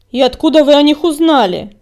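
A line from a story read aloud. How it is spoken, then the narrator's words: Angry bark. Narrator (Russian): рявкнул коготь, злобно сверкая глазами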